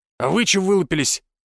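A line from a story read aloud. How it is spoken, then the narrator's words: Loud bark. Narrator (Russian): гаркнул он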